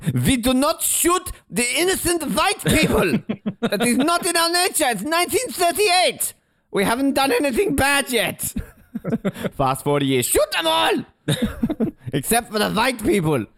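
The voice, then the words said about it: Fairly good put-on German accent. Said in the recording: “That's not a bad German accent”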